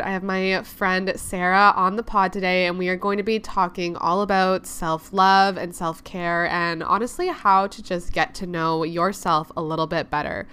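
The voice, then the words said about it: Congested voice, recovering from voice loss. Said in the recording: “I, as already mentioned, definitely sound a little bit congested. I'm getting back from losing my voice, and I know I just sound a little bit ridiculous”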